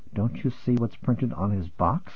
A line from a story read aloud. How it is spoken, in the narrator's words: whispered